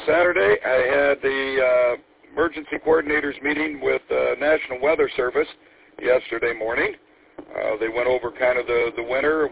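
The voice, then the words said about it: Sick, congested-sounding voice. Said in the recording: “have to excuse my voice. I came down with a cold.”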